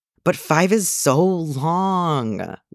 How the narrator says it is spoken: Leon whined

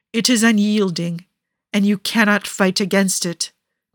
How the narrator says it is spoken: Niccolo says harshly

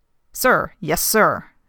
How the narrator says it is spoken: snaps out the guard

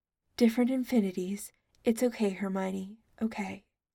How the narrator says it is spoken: She took in a little calming breath and murmured

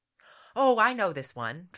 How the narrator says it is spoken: Trexel exclaimed

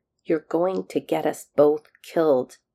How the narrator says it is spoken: he growled, hoping the threat would be enough to keep McKay moving

